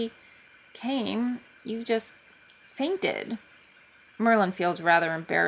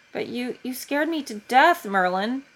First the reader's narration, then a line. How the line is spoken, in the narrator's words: he blurts out after a moment of silence